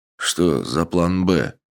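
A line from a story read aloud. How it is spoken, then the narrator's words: Displeased mutter. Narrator (Russian): недовольно буркнул Флотский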